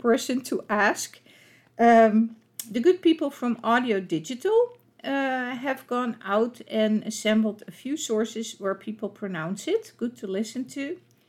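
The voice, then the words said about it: Dutch accent in English. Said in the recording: “with my Dutch accent”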